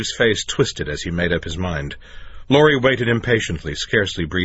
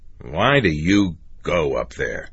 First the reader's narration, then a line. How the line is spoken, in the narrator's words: Steve grumbled